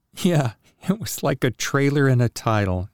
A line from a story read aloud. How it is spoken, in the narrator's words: Jessica chuckled